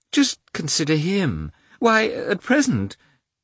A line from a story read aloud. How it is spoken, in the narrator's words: the old princess's voice unexpectedly quavered